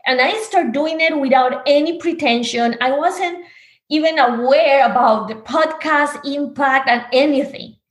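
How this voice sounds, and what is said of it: Spanish-speaker's accent in English. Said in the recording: “am I going to do it in Spanish? ... listen to my accent.”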